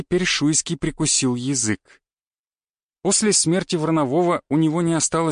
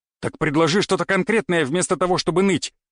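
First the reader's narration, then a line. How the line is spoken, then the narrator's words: Snapped irritably. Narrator (Russian): огрызнулся Даниил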